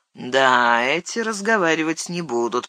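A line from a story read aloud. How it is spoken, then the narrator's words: Grumbling creature. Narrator (Russian): проворчал недоселок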